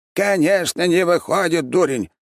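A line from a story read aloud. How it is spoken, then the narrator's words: Sudden loud shout. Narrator (Russian): неожиданно громко крикнул маг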